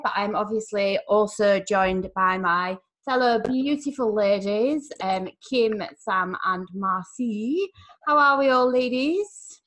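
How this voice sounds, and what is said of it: Speaks with a distinct accent. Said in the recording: “as you can obviously detect by the accent”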